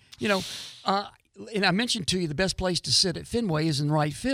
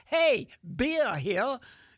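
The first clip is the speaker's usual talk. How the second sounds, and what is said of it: Poor put-on New England accent. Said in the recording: “that's a terrible New England accent.”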